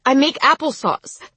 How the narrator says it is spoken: she said, ending with a sob

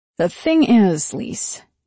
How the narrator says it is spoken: he said, in the slow voice that meant he was about to say something incisive and possibly devastating

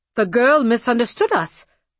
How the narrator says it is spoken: the tall one sputtered

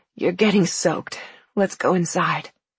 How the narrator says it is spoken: Joseph flung himself away, panting, and said in a hoarse voice

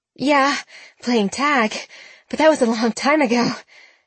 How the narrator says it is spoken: said, gasping for breath

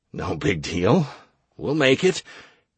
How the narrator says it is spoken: I muttered

